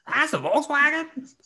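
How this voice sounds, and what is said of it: Paul Giamatti impression. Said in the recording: “do a Paul Giamatti impression? ... See, that's perfect Giamatti.”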